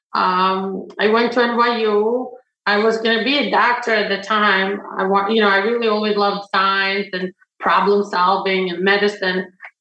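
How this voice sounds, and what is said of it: Non-native English accent. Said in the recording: “English is not my first language. I have an accent.”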